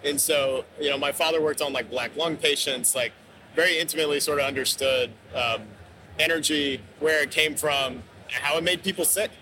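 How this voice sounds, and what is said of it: Rural Kentucky accent. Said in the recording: “I grew up in rural Kentucky, if you couldn't tell from my Scots-Irish name and accent.”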